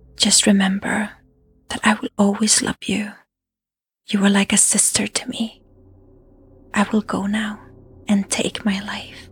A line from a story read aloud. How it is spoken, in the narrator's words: she could hear Dangoule whisper